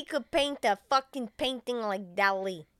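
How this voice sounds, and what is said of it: Put-on accent. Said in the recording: “merging the accents here. I'm trying to stay specific to one intonation.”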